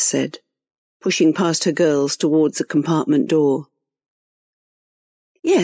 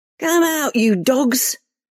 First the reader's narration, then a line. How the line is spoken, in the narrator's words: Reva shouted into the darkness